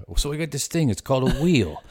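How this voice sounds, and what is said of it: Put-on New York accent. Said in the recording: “I don't know why I gave them a New York accent.”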